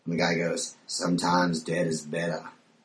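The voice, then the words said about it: Maine accent imitation of movie character. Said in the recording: “In that main accent”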